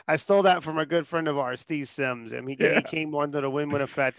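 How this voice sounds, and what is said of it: American-sounding accent, not British. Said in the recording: “I don't hear a strong British accent... this microphone makes me sound American”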